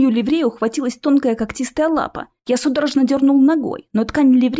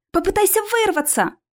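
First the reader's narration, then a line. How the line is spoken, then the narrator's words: Shouting. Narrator (Russian): крикнула Алиса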